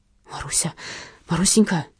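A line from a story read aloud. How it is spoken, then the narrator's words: Muttering. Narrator (Russian): бормотал Николай Прохорович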